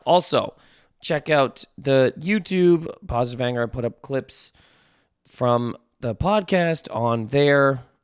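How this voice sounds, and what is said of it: Strained, worn-out voice. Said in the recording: “my voice is still kind of ruined from this weekend”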